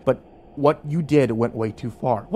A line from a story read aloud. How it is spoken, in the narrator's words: Hernandez said quietly